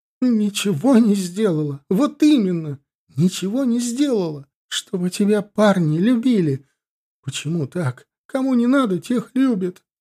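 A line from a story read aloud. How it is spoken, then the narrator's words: Sobbing. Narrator (Russian): рыдала Диана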